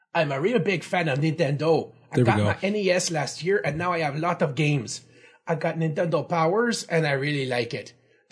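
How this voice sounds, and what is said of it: Exaggerated Quebecois accent. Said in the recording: “an insulting Quebecois accent”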